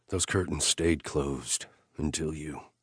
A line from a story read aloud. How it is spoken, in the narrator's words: I whispered